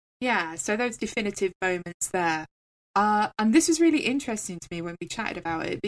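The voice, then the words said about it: English accent. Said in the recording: “as you might gather, I am from England, I am English. I don't know what is going to give it away to you right now, but the accent might be a factor”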